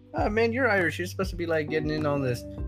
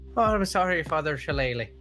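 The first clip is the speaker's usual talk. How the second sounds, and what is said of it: Put-on Irish accent. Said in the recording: “Why are you Irish now? ... You do a better Irish accent than I do.”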